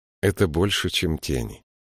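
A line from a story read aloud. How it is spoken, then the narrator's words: Calm. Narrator (Russian): спокойно ответил Бинабик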